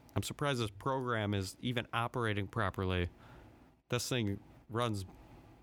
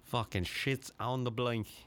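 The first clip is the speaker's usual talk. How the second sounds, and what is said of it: Put-on Australian or British accent. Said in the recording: “if you're Australian or British, you might say on the blink... sue me if that's an incorrect accent... I'm just talking differently to try and make it sound different”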